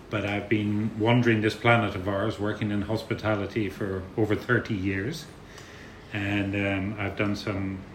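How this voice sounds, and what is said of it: Irish accent. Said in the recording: “my accent ... I've come from the other side of the water ... we speak a little funnily ... a very proud Irishman”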